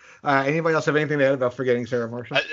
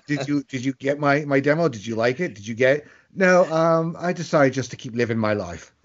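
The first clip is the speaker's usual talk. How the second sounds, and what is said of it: Russell Brand impression, London accent. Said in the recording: “Is that you trying to do a London accent? ... No, it's a Russell Brand.”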